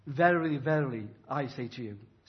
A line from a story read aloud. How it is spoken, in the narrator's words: says Jesus